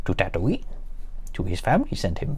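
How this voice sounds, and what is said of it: Poor attempt at Yoda's voice. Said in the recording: “I can't do Yoda's voice. ... my awful impression of Yoda”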